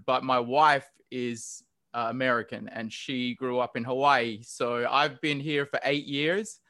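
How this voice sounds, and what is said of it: Australian English accent. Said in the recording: “I've actually lived and grew up in Australia ... I try to pronounce my R's a little more ... the accent is endearing”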